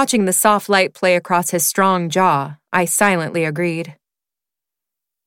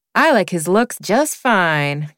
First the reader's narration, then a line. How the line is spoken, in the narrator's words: Candace drawled, a smidge of her southern roots showing